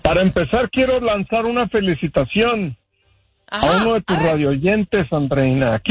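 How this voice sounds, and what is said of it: Put-on radio announcer voice. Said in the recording (Spanish): “mi nueva voz de locutor ... Con su voz de locutor también”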